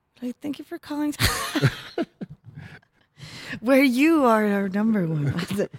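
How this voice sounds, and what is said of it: Overly nice customer service voice. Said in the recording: “Just like really nice, like my customer service voice.”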